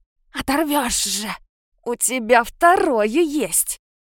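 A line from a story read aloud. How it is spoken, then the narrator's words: Vengeful wheeze. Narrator (Russian): Мстительно прохрипела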